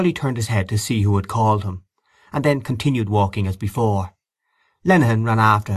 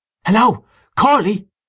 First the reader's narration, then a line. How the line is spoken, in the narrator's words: he cried again